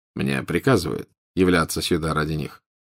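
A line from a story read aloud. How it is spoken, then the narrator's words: Quiet. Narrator (Russian): тихо произнес Волан-де-Морт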